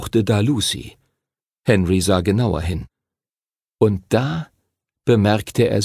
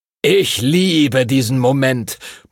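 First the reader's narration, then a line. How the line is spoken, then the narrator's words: Booming, boisterous. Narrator (German): polterte Master Duncan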